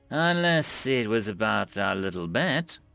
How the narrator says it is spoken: She let out in a trailing and suggestive voice

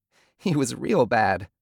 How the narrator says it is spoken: Bobby said, his voice wavering with more giggles

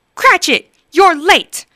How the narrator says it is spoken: growled Scrooge, pretending to be angry

